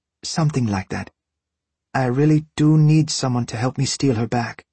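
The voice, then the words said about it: Warm Hispanic accent. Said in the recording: “she's Hispanic from her accent. I like the Spanish warmth it puts on her words”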